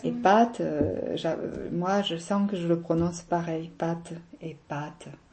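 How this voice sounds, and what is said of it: Southern French accent. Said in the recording (French): “Je sais que mon accent fait sourire des fois. ... moi je suis du midi, oh, ça s'entend, ils disent.”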